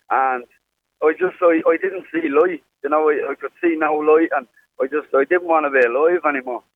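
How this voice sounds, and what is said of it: Irish Dublin accent. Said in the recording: “that clearly isn't a Sligo accent. ... So you moved from Dublin”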